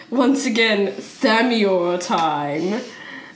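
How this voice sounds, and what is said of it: Posh elf character voice. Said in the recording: “as you can probably tell by my voice, I'm kind of posh”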